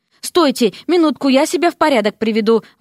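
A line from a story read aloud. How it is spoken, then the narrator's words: Exclaiming. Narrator (Russian): воскликнул Дерек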